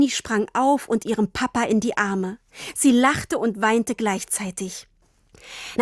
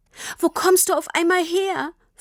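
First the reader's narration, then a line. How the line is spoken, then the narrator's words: Sobbing question. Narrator (German): fragte Tini immer noch schluchzend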